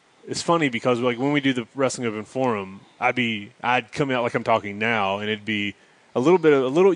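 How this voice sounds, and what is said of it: Mild Southern US accent. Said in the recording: “You can tell I got a North Carolina accent or that little Southern accent, but it's not like, hey y'all.”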